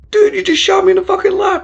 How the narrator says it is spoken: he exclaimed

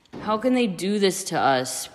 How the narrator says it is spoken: Peter groaned

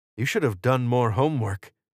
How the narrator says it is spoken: Israel said

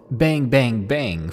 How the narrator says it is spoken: to yell

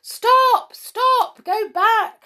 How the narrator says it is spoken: shouted the crowds

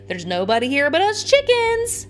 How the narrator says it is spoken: yells back

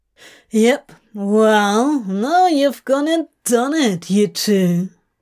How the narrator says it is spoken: Crowley drawls

